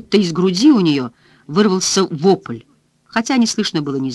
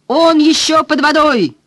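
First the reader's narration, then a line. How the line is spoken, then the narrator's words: Shouted in unison. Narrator (Russian): дружно крикнули Данкин с Уолтом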